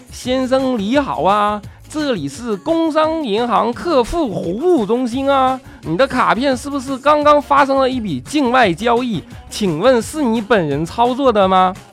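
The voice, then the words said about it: Put-on Fujian-accented Mandarin. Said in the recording (Chinese): “福建口音的电话……你不能学普通话吗？”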